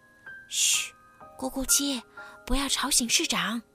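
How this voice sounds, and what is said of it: Quiet, hushed speech. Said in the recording (Chinese): “小声说道”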